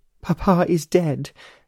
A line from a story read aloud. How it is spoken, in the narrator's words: she sobbed